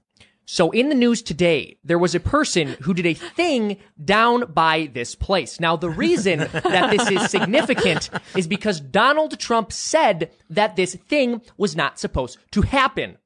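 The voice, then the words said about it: Imitates another person's voice. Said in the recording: “My Tim Pool impression would be tough ... This is going to be really bad.”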